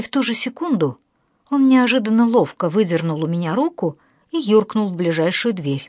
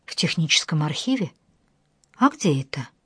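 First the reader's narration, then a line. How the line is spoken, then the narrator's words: Barely audible mutter. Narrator (Russian): Сотрудник института едва слышно пробормотал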